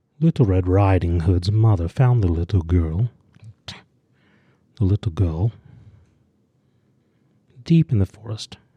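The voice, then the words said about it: Attempted British accent, sounds Russian. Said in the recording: “Was that meant to be Russian or a British accent? ... meant to be British ... Even though it sounded nothing. ... you have one accent.”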